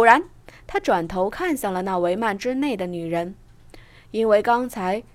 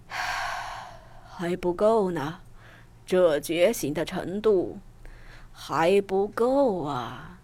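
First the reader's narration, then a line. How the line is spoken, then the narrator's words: Soft sigh. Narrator (Chinese): 城隍只是轻叹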